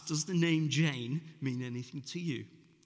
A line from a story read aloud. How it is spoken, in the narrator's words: Somewhat nervously asked